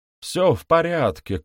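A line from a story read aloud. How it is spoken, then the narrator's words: Shouted. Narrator (Russian): крикнул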